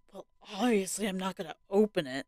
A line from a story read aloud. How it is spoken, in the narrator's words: he whispered to his wife